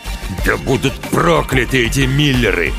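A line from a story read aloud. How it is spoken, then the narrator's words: Growled. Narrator (Russian): прорычал отец девочки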